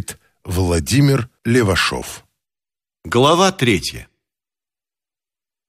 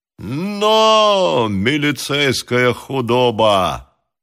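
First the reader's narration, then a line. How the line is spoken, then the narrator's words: Shouting. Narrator (Russian): кричал Грищенко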